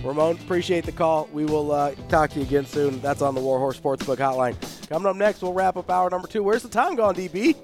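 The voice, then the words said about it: Slightly hoarse, fading voice. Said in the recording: “I'm losing my voice a little bit. Been yelling too much the last couple days.”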